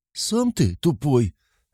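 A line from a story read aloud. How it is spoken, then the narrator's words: Offended. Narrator (Russian): обиженно блондинка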